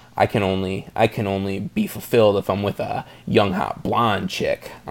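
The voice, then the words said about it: Imitates another person's voice. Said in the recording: “I'm Adam Sandler ... Is that your Adam Sandler impression?”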